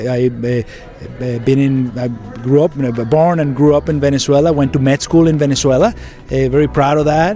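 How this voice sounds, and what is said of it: Venezuelan Spanish accent. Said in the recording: “I hear an accent, and you're not from Brooklyn or a Southie. Where's that accent from? ... I'm Venezuelan.”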